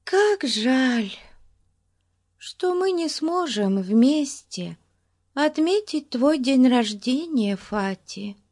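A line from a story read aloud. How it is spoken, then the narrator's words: Sad. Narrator (Russian): грустно проговорила Бетси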